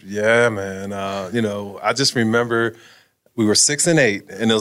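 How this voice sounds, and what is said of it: Usual voice. Nothing is said of it.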